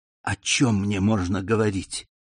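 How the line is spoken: Whispered question. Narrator (Russian): шепотом спросил Альбер граф

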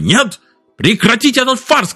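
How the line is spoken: Shouted reply. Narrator (Russian): крикнул Экс в ответ

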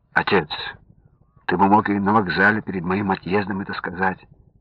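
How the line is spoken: Gentle, smiling. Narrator (Russian): мягко улыбнулся Александр

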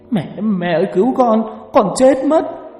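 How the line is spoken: Boy's sobbing scream, running. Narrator (Vietnamese): Có thằng vừa chạy vừa khóc thét

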